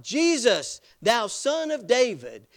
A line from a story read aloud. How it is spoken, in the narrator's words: He was making a passionate plea, and he was shouting out